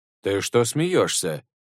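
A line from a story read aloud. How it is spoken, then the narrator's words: Plain. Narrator (Russian): спросил его Шасен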